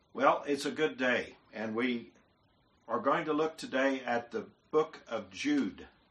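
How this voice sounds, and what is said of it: Oklahoma accent. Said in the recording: “I have an Oklahoma accent”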